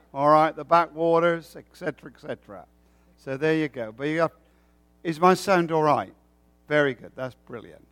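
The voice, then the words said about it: Rural English accent, not posh. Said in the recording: “it's not Canadian, it's not American, it is English... It's not your posh English accent. It's the countryside of England.”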